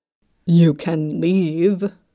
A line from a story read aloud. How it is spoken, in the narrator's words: Yu Jinghyuk growled